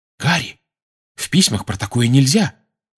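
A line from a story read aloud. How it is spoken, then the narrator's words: Alarmed exclamation. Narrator (Russian): встревоженно воскликнула Гермиона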